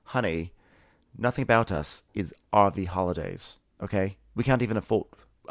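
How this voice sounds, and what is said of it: Generic British accent imitating PK. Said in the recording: “I don't know what my PK accent is right now. ... I just was sort of like in a generic British place. And I was like, this feels weird. It almost sounds too sophisticated.”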